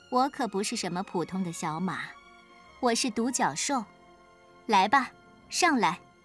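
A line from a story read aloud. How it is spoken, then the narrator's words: Cold reply. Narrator (Chinese): 他冷冷的回答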